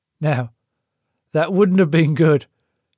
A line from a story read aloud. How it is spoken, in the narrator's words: Frank said, his smile faltering